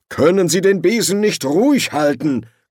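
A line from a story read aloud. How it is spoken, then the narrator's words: Growling official. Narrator (German): knurrte der Erzkanzler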